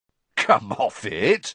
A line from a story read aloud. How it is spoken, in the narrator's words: said Ron, starting to laugh